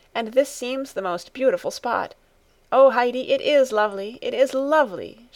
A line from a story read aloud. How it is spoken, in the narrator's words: she cried, looking round her with delight